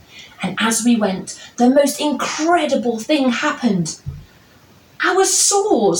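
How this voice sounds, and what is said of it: Usual voice. Nothing is said of it.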